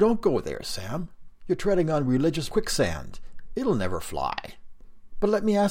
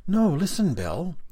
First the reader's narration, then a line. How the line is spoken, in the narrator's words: Sam replied earnestly